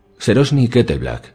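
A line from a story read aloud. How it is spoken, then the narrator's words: Firm asking voice. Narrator (Spanish): preguntó el septón supremo con voz firme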